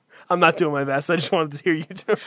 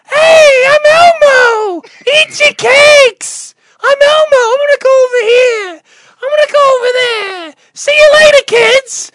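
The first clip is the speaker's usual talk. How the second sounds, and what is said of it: High-pitched Elmo character voice. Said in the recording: “do an Elmo voice ... how Elmo talks”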